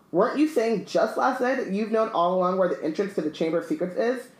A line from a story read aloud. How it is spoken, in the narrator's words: I sputtered Lockhart